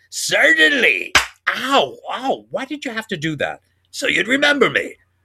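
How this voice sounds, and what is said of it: Imitates another person's voice. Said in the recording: “my Bud Abbott impression”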